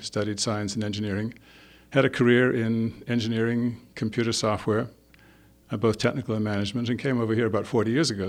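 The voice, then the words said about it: Scottish accent. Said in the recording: “You probably can guess from my accent that I wasn't born here. I was actually born in Scotland”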